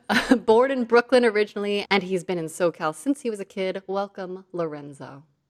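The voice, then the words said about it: Announcer voice. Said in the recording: “Especially your voice. It works well ... There's my announcer voice”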